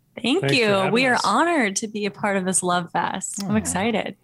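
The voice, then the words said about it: Soothing radio voice. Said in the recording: “the most soothing voice? ... Good radio voice.”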